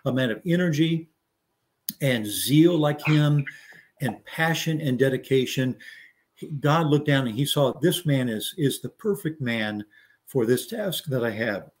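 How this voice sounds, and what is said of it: Strained, hoarse voice. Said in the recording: “I've been talking all morning through other calls, so I'm losing my voice here a little bit.”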